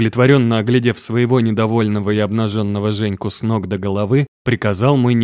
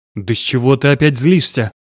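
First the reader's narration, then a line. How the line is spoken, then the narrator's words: Exasperated growl. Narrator (Russian): не выдержал я и зарычал в ответ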